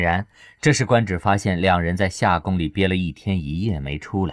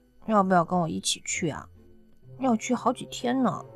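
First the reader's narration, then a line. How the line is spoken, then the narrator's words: Reluctant murmur. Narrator (Chinese): 刘亚楠不舍得，忍不住嘀咕道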